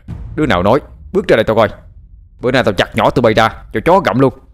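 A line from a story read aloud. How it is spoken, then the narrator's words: Cursing shout. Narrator (Vietnamese): Thằng Linh chửi đổng, quát lên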